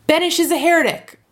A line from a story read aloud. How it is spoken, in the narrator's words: roared Mordechai Joseph